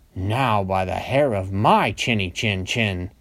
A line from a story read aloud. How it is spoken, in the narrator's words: roared